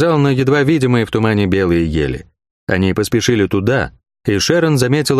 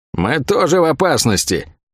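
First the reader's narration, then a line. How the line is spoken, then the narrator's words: Irritated grumble. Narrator (Russian): С некоторым раздражением из-за этой остановки проворчала Лавиане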